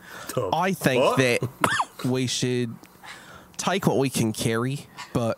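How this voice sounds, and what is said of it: Put-on Australian accent. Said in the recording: “I have to get my accent right ... it's Australian, I thought.”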